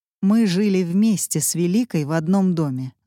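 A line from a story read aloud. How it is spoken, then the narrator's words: Plain. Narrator (Russian): ответил Четвергов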